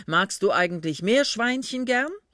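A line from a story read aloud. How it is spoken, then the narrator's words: Man speaking loudly. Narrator (German): sagte der Mann laut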